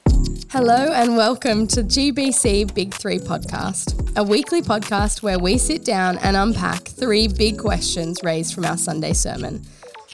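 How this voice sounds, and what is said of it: Croaky voice with a cold. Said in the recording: “Please excuse my voice. ... I do have a cold, so bear with me as I croakily talk through this podcast.”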